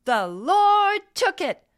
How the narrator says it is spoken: she shouted

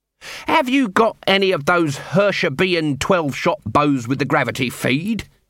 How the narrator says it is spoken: he snapped

